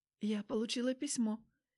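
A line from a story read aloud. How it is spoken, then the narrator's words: Quiet, forced words. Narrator (Russian): тихо выдавила из себя Аня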